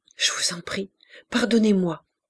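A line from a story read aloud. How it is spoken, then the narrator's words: Stammering. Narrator (French): balbutia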